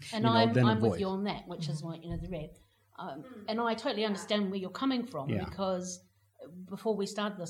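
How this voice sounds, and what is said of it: New Zealand accent. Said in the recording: “my voice is unique in the UK. I'm not a British voice, so I don't blend in. I stand out. ... any other Kiwi on the street”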